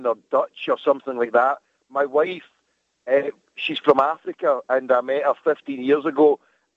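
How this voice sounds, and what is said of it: Thick Scottish accent. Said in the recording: “it is the most Scottish accent I've heard ... it's thicker than Scrooge McDuck”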